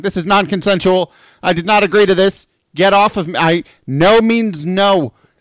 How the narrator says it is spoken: it is just shouting

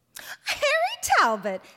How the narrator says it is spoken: said Dorothy Harmon, laughing

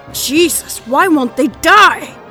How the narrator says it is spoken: Steve screamed behind her, a strain of disbelief and terror in his voice

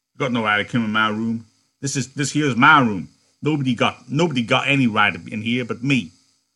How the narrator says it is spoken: Crooks said sharply

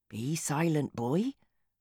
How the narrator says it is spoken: whispered Lanivar

